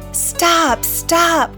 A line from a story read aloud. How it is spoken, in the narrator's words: cried the townspeople